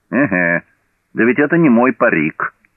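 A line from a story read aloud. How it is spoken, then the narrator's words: Exclaimed. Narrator (Russian): воскликнул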